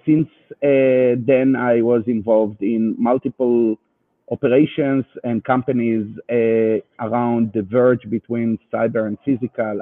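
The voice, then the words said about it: Israeli accent in English. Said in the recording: “you can hear my Israeli accent”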